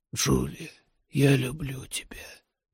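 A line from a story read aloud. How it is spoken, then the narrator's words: Barely audible whisper. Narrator (Russian): прошептал Рэй едва слышно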